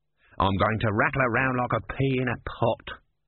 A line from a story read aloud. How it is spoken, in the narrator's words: grumbled the tortoise